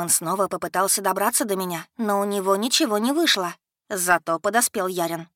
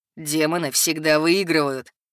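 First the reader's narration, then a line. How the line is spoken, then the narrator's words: Mocking rough bass. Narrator (Russian): насмешливо сообщил нам грубый бас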